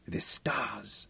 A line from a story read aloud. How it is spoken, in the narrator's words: Gundang whispered with superstitious awe